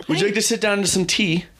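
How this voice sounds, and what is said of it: Slight put-on British accent. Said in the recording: “slight British accent”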